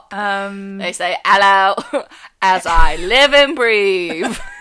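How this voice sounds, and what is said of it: Put-on British Cockney accent. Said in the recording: “your One Direction accent followed by your Pirates of the Caribbean accent followed by your Lin-Manuel in Mary Poppins accent ... Cockney accent”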